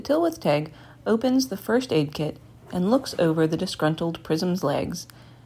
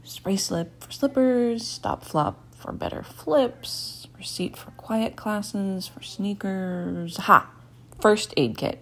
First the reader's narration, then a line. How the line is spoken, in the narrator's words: Petrichor muttering